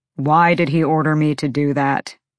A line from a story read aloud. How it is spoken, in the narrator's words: Rune growled